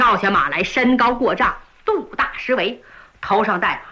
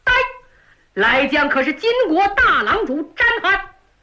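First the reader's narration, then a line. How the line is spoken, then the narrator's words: Shouting. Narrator (Chinese): 高喊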